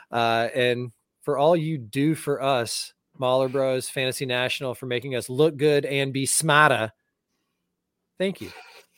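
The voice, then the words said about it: New England accent. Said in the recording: “you nailed the accent there. You're picking it up ... I'm born again New England”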